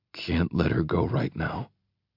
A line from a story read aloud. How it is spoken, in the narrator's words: he mutters to me